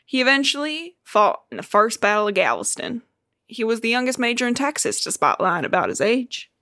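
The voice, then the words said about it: Put-on accent while narrating. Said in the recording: “you're doing the accent again”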